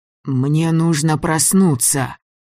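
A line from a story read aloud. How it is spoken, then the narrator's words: Repeated hoarse rasp. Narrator (Russian): снова прохрипел Митяй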